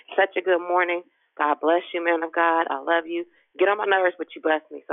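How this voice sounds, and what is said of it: Hoarse voice. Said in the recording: “I'm hoarse from walking around through the house screaming”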